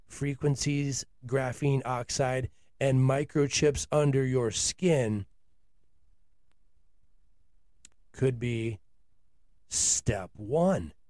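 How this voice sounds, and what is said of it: Dramatic, ominous voice. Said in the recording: “I do the voice because I'm trying to bring dramatic effect to these topics. And I am trying to frighten you a little bit.”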